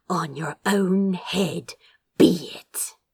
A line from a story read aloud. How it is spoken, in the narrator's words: she hissed